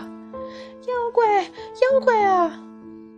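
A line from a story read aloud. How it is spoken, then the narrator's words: Shrill, terrified scream. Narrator (Chinese): 那声音又凄厉的喊道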